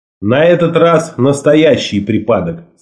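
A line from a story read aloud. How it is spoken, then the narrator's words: Plain. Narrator (Russian): сказал я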